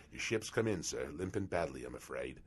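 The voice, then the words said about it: Exaggerated Australian accent. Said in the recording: “I think my accent was a little better than that, so it was very subtle ... you're not Australian?”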